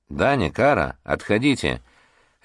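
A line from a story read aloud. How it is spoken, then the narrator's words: Quiet child's command. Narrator (Russian): рядом тихо прозвучал приказ малыша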